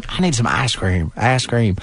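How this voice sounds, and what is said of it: Southern American accent. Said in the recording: “you can hear it with a Southern accent.”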